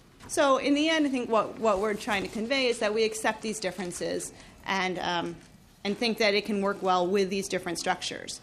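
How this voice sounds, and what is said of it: Speaking very fast. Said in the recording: “I know I'm talking really fast.”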